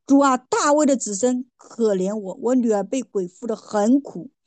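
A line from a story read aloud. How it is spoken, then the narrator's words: Woman crying out. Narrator (Chinese): 有一个迦南妇人喊着说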